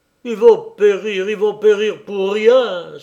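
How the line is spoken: Desperate cry. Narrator (French): s'écriait-il avec désespoir

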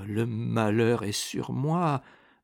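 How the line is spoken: Murmured. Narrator (French): murmura Primevère

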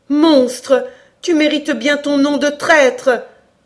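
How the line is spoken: Bursting indignant cry. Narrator (French): s'écria Cora dans une explosion d'indignation filiale qu'elle ne put comprimer

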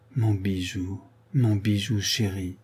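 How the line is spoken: Murmur. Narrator (French): murmura Madame de Bracieux

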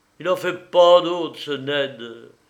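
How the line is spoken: Exclaimed. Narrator (French): s'écria Frazier aîné

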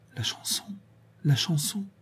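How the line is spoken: Murmuring. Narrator (French): Véronique murmura

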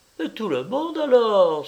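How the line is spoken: Exclaimed. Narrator (French): s'écria Nanteuil

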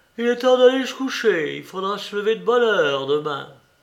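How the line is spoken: Yawning grumble. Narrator (French): grommela-t-il en bâillant

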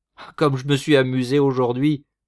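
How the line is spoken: Exclaiming. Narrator (French): s'écria-t-il

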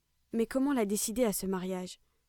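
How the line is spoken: Ashamed asking voice. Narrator (French): demandait-il d'une voix honteuse

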